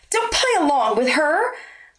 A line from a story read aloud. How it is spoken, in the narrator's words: the blonde cried